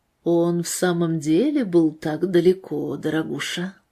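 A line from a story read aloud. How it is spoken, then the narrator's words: Quiet calm question. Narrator (Russian): Мэри Грейс задала этот вопрос тихим, спокойным голосом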